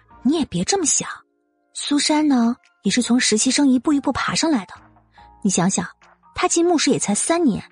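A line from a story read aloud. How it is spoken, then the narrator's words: Quiet, low voice. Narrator (Chinese): 陆茵茵这才小声的说道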